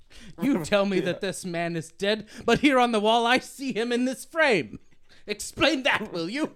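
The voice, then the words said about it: Put-on British accent. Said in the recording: “That's good. Yeah. That's a British accent, too. ... That one was good.”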